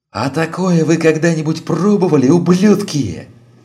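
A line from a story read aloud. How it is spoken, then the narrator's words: Yelled. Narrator (Russian): заорал водитель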